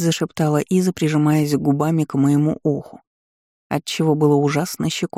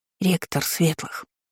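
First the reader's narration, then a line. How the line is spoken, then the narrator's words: Whisper. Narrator (Russian): прошептала Иза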